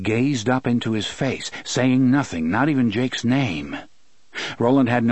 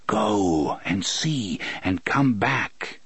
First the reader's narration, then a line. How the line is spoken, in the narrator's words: Roland repeated in a whisper